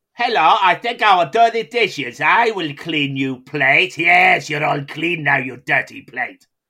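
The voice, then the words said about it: Put-on vague unidentifiable accent. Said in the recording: “in different voices ... what was that accent meant to be? ... Meant to be from Earth”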